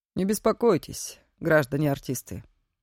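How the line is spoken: Low, slightly hoarse distant voice. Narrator (Russian): Послышался из темноты знакомый Нине низкий, чуть хрипловатый голос

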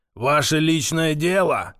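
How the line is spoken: Sudden roar. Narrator (Russian): вдруг взревел Павел

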